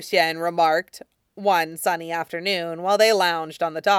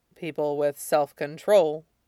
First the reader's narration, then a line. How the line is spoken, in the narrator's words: Lan Wangji murmured